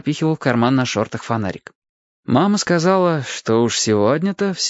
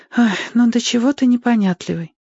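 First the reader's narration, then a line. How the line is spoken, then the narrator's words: Sigh. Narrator (Russian): вздохнула она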